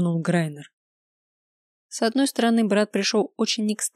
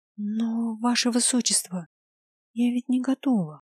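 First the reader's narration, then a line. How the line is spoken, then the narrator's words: Very quiet. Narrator (Russian): очень тихо произнесла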